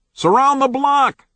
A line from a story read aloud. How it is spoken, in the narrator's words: Bigger heard an answering shout